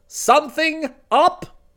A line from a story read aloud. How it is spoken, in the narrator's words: boomed